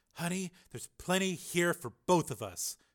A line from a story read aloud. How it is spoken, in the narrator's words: shouted Linda